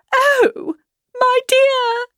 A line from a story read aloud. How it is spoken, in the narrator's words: cried his wife